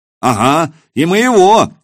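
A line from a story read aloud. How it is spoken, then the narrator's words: Shouted out. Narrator (Russian): выкрикнул кто-то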